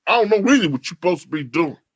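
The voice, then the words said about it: Imitates another person's voice. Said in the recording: “the Ice Cube at impersonation”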